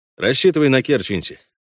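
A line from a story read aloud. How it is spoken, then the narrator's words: Calm command. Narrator (Russian): спокойно велел Парт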